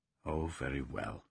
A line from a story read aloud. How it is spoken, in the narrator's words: he said gently, respectfully, but with a faint ridicule that did not escape Sirius